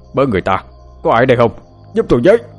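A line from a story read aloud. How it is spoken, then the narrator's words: Shouting. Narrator (Vietnamese): ông hét lên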